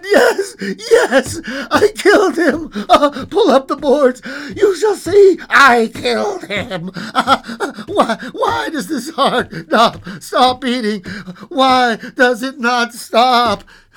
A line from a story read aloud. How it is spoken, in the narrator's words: cried